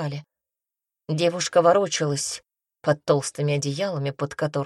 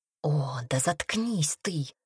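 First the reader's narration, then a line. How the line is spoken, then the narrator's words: Hiss. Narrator (Russian): прошипела Темпест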